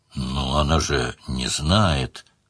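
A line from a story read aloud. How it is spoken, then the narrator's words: Sad wry laugh. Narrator (Russian): грустно усмехнулась Делия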